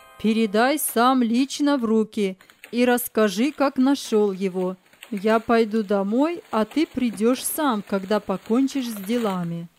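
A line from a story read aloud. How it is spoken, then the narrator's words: Loud, father. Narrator (Russian): Андрей Николаевич, наклоняясь к сыну, громко сказал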